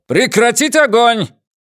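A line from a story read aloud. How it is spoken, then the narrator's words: Commanding bark. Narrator (Russian): командирским голосом, который приобрел в бытность сержантом сил самообороны, рявкнул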